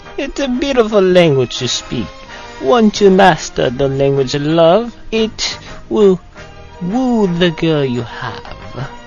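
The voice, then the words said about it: Put-on Italian accent. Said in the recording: “I have an Italian accent, don't you know?”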